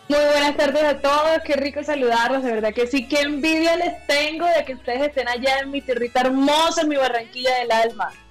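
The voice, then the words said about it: Colombian Caribbean coastal accent. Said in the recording (Spanish): “Ese acento costeño no se pierde”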